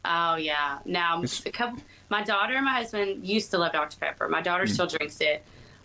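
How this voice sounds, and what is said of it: Mild Southern accent, Nashville-like. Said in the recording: “everyone that lives in Texas has an accent ... It's not as bad as a lot of people that I hear ... your accent sounds a little bit more Nashville than anything”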